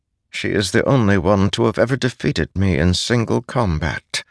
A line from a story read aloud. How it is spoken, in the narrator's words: Nail said softly